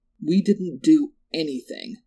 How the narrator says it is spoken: Lindsay said, her voice rising with anger

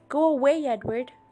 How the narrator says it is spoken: I yelled at him

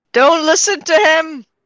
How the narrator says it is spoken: Mary would sort of yell out

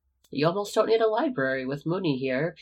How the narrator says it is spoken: Peter chuckled

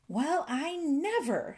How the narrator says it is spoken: exclaimed the fairy

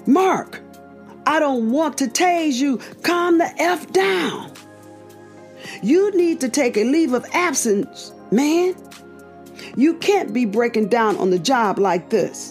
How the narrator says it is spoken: A fourth officer approached, shouting

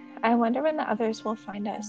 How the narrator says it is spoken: said Mrs

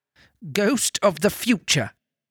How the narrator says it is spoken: exclaimed

